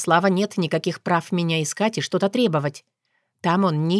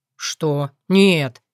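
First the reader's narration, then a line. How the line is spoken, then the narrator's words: Indignant. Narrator (Russian): возмущенно отвечает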